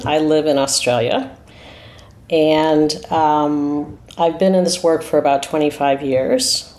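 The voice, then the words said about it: American accent. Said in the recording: “You could hear from my accent, I'm American.”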